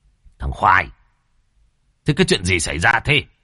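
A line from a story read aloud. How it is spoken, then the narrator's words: Flustered, nervous. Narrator (Vietnamese): bị quát, tỏ ra luống cuống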